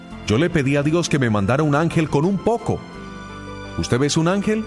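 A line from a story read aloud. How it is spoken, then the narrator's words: Wife shouting from afar. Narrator (Spanish): Su esposa gritó desde la cocina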